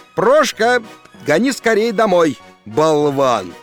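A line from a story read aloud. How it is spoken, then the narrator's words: Shouting. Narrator (Russian): крикнул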